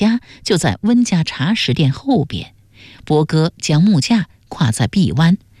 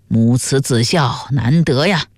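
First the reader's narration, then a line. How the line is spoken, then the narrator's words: Admiring sigh. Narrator (Chinese): 旁边的客人羡叹道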